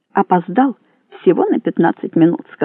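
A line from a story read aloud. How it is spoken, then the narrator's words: Plain. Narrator (Russian): сказал он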